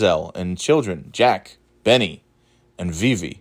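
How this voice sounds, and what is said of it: Usual voice. Nothing is said of it.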